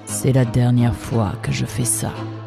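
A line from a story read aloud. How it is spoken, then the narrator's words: Giant murmuring. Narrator (French): murmura le colosse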